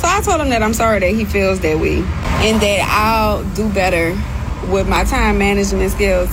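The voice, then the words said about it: New Orleans accent. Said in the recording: “that New Orleans accent”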